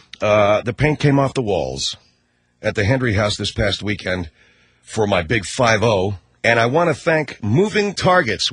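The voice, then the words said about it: Rough, hoarse voice. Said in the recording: “my voice is a little rough because we hooted, we howled, we screamed”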